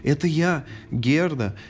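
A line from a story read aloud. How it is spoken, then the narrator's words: Joyful shout. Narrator (Russian): Герда радостно закричала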